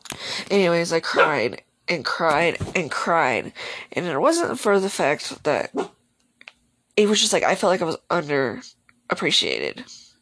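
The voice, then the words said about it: Sore-throated voice, slight stutter. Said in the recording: “My throat just hurts, and that's why I'm stuttering a little.”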